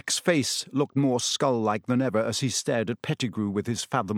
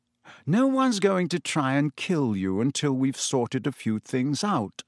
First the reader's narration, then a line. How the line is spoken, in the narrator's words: said Lupin